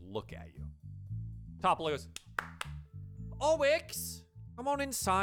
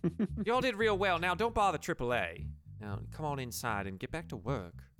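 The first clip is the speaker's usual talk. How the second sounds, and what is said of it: Put-on Southern accent, character voice. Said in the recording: “She was a Southern accent.”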